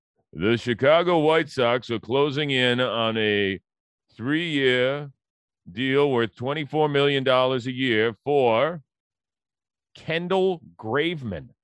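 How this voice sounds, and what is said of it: Imitates another person's voice. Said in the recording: “I'll read it in my John Heyman voice.”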